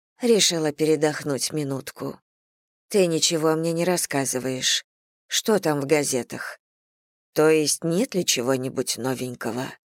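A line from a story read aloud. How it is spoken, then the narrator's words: Muffled, embarrassed voice. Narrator (Russian): Она произнесла это приглушенным голосом, словно стыдилась своего необычного любопытства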